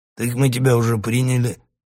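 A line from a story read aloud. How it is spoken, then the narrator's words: Bearded man's snort. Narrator (Russian): хмыкнул бородатый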